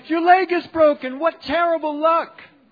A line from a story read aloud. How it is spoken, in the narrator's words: the neighbors cried